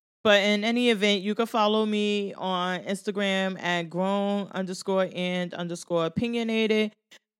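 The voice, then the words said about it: Stuffy, congested voice. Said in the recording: “my voice is getting like, I'm getting stuffy”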